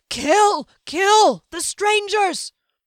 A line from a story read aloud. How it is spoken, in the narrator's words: in terror and screamed